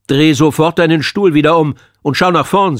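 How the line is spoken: Stern. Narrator (German): sagte der Vertretungslehrer streng

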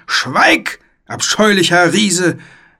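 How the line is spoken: Roar. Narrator (German): brüllte der Ritter

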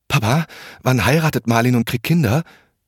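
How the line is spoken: Trembling voice. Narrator (German): fragte er mit zitternder Stimme

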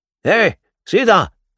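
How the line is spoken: Called out. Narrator (German): rief er

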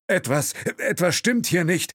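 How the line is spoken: Chauffeur calling in broken English. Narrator (German): rief der Chauffeur in holprigem Englisch

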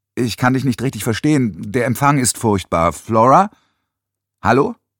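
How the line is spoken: Too loud. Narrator (German): Nans Stimme war zu laut

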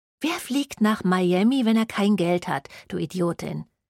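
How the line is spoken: Hissed. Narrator (German): zischte Elisha ihre ehemalige beste Freundin an

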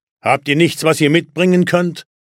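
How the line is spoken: Piper's call. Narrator (German): rief der Schalmeispieler

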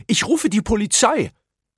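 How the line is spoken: Shrieked. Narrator (German): kreischte

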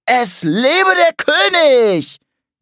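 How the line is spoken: Shrieking. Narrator (German): kreischte Curly

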